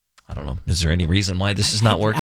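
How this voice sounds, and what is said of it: Whispering. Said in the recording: “we're whispering”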